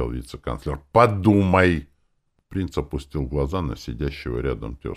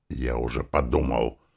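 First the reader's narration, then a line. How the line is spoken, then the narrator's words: Grumpy hiss. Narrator (Russian): прошипел он, только сварливым тоном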